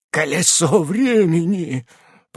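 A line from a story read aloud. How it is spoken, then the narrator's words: Witch's whisper. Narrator (Russian): прошептала ведьма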